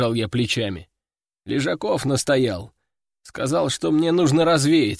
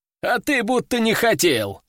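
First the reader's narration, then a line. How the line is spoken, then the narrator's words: Chuckling. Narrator (Russian): хохотнул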